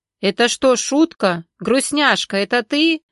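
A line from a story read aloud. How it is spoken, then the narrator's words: Man shouting through speaker. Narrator (Russian): орал мужской голос из динамика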